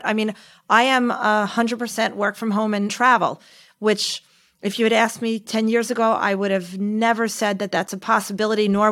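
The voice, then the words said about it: Specific American accent. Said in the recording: “you obviously have an American accent, a rather specific one”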